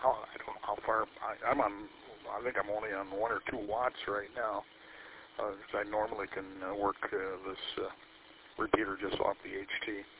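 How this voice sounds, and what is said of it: Hoarse, strained voice. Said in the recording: “Losing my voice here.”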